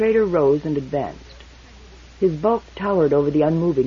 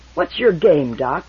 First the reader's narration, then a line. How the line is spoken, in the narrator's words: The trader said irritably